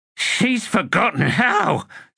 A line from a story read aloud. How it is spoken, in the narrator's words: Sweet Lard gasped